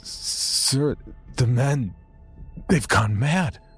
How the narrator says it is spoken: the doctor whimpered

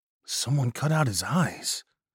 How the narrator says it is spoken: Hernandez said quietly

